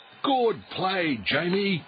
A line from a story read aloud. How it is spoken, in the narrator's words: shouted Coach Wilson